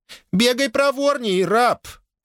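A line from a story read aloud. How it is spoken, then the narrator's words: Mocking shrill shout. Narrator (Russian): подражая визгливым интонациям старейшего, прикрикнула Вью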